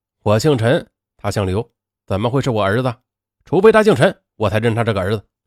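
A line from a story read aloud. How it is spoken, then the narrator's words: Cold reply. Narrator (Chinese): 陈文宁他冷冷的回答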